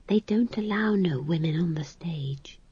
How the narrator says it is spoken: said McGrath in a small voice

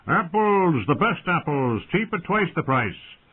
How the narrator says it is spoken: farmers bellowing out

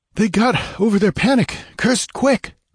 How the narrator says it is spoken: panted Balthus, complying with a fresh burst of speed

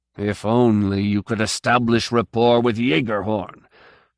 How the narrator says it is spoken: he grumbles

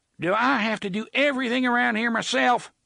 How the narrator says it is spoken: TikTok shouted, more exasperated than angry, it seemed

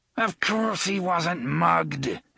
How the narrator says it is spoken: Elmer Chambers snarled

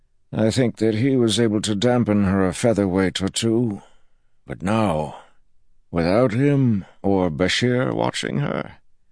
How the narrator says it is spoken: He sighed

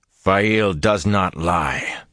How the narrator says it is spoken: Perrin growled

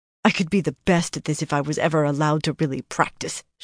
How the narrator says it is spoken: she grumbled sullenly

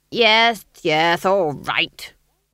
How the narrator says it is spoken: snapped Lord Felmet

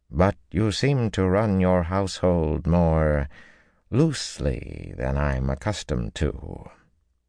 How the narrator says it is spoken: Ty Lee drawled in careful tones

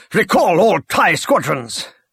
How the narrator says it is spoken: Trigget shouted

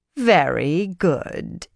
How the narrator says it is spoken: Idrella said sarcastically

